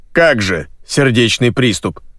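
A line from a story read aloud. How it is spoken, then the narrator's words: Growl. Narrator (Russian): прорычал Монро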